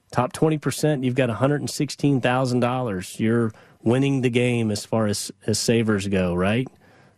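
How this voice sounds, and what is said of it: Sarcastic tone. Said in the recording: “I say that facetiously, or I hope you can hear the sarcasm in my voice.”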